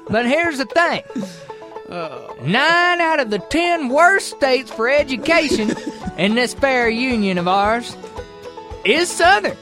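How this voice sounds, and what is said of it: Southern accent. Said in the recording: “For the South ... As you can probably tell from my accent”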